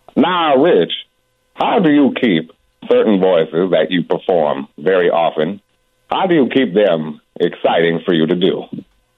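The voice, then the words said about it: Deep-voiced Morgan Freeman impression. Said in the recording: “That's pretty good. Huh? Morgan Freeman, boy, you got to have a deep voice to do him.”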